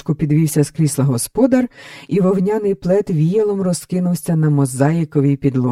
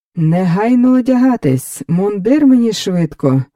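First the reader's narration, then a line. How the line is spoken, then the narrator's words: Joyful shouting. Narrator (Ukrainian): радісно загукав Фелікс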